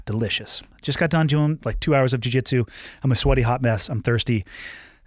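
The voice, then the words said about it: Slightly dry voice. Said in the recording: “my voice is a little dry”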